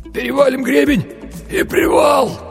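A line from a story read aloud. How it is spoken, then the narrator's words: Hoarse wheeze. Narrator (Russian): прохрипел Винни-Пух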